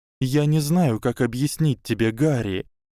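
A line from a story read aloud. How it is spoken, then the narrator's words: Soft and sad. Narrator (Russian): мягко и печально ответила Гермиона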